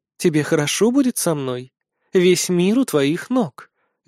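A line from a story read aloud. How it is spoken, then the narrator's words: Tender, caring. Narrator (Russian): говорит ласково и заботливо высшая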